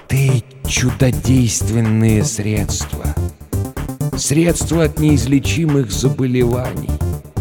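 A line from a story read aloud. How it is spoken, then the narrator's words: Whisper. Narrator (Russian): он прошептал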